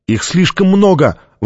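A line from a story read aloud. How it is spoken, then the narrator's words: Exclaiming. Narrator (Russian): воскликнула Соши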